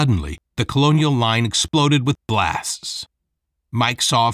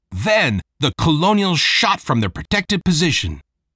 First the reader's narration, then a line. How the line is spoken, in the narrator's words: Novak shouted